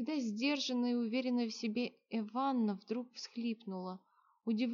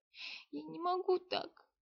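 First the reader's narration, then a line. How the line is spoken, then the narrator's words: Tearful, forced out. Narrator (Russian): сквозь слезы выдавила Эванна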